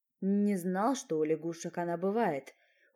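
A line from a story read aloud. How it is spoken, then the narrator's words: Mentor's surprised mutter. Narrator (Russian): удивленно пробормотал наставник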